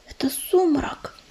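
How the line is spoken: Whisper. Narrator (Russian): прошептала Белолапка

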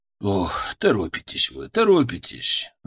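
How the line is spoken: Sighing. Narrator (Russian): вздохнул он

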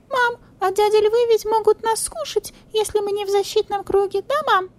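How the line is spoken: Thin little voice asking. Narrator (Russian): Тонким голоском спросил сурикатик

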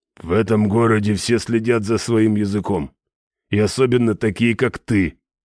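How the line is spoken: Low droning rumble. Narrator (Russian): прогудел наемник

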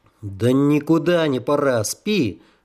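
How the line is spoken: Grumbled. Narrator (Russian): буркнул я

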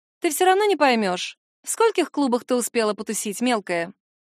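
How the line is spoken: Fake cheerful baby talk. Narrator (Russian): Последнее слово было произнесено наигранно весело, словно она не унижает меня, а всего лишь сюсюкает с трехгодовалым ребенком

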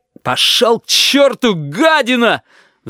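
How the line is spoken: Roared. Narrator (Russian): взревел Корнелий

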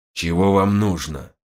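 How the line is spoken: Strained, forced out. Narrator (Russian): выдавил наконец он

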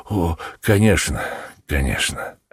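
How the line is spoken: Relieved sighing reply. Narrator (Russian): ответил мистер Бейкер, облегченно вздохнув

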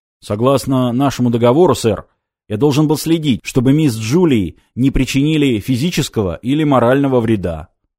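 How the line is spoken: Booming drone. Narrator (Russian): прогудел он

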